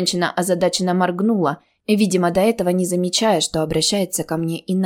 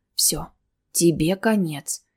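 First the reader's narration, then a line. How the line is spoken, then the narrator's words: Quiet and sad. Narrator (Russian): тихо и грустно заметила Анира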